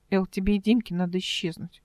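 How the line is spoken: Whispered. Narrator (Russian): шепотом сказала Ольга

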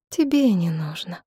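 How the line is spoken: Sad. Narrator (Russian): она печально улыбнулась

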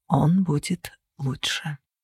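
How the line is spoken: Quiet reply. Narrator (Russian): тихо ответил Кости

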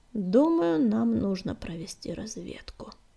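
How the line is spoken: Grim. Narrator (Russian): мрачно сказал белый воин

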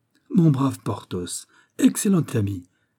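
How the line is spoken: Exclaimed. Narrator (French): s'écria Athos

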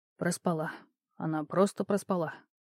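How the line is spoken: Whispering under breath. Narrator (Russian): прошептал он сам себе под нос

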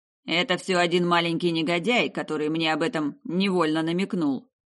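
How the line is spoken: Grumbling. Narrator (Russian): проворчал владелец целого города

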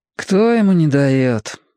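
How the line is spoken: Sad reply. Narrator (Russian): грустно отозвался Маркони

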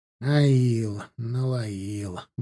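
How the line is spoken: Muttering. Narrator (Russian): бормотал Бажен

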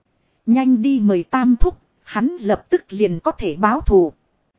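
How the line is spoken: Laughing loudly. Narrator (Vietnamese): Trình Văn Côn cười to, nói

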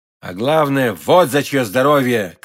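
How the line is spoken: Rapturous shout. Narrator (Russian): крикнул Д'Артаньян, словно в порыве восторга

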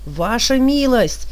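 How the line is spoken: Yelling nearby soldier. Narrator (Russian): завопил совсем рядом какой-то солдат

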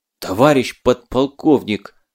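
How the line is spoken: Breathless, exhausted gasp. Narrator (Russian): с трудом выдохнул он, видимо, бежал из последних сил

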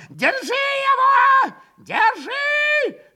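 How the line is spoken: Yelling. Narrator (Russian): Завопил он

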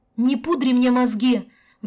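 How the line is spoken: Sudden deafening yell. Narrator (Russian): Вдруг заорала Каська так громко, что содрогнулись стены

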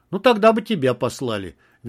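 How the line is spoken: Cheerful reply. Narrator (Russian): весело отозвался Андрей

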